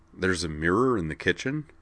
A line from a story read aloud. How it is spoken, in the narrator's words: asked Wakaba